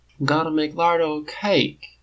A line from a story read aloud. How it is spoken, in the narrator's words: Biddy says sleepily